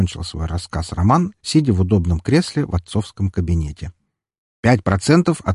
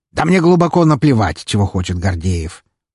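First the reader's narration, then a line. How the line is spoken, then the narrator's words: Contemptuous snort. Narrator (Russian): презрительно фыркнул Павел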